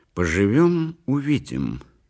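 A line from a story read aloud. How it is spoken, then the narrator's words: Plain. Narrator (Russian): сказала она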